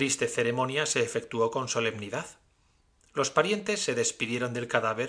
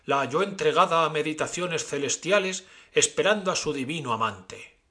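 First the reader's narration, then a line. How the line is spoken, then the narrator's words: Speaker exclaiming. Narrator (Spanish): exclamó el orador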